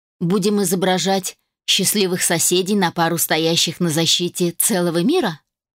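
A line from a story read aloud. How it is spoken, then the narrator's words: Snorting. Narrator (Russian): хмыкнул Дик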